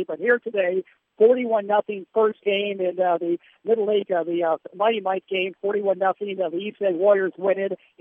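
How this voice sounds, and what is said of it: Strained, worn-out voice. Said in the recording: “my voice is giving out here... on the air for over 3 hours, it's taking its toll”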